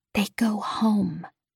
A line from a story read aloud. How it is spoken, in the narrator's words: I whispered